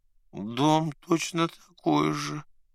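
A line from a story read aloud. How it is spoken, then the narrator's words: Sad grumble. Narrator (Russian): грустно пробурчал бедолага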